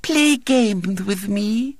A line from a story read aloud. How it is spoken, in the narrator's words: went on Violet Elizabeth soothingly